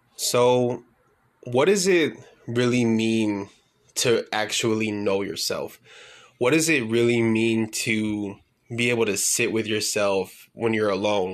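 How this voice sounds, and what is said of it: Slightly off, under-the-weather voice. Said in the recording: “I am a little bit under the weather still, so my voice is still going to sound kind of not 100% right now ... even with a messed up voice”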